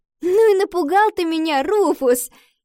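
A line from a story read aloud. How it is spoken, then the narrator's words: Girl laughing. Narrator (Russian): засмеялась девочка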